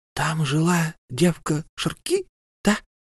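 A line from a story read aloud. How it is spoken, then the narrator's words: Child whispering question. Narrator (Russian): шепотом спросил крошка Ие, младший паш Ра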